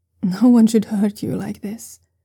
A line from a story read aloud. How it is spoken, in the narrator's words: the man continues, his voice gentling again